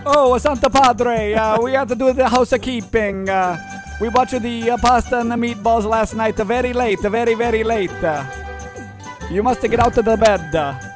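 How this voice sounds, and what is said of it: Put-on Italian accent. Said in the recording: “They probably have an Italian accent, though”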